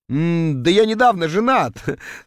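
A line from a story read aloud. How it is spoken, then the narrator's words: Forced through laughter. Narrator (Russian): сквозь смех процедил я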